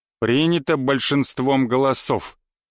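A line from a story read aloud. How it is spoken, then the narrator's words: Dry, clipped old man. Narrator (Russian): сухо отчеканил дед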